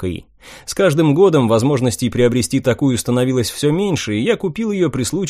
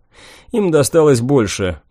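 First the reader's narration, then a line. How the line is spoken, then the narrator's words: Grim joking. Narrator (Russian): мрачно пошутил я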